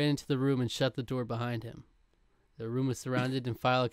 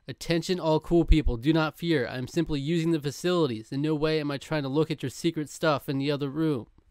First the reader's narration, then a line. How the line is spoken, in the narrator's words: amplified his voice as he yelled